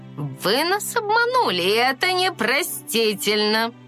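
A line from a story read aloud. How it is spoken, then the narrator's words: Snorting. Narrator (Russian): Гризельда фыркнула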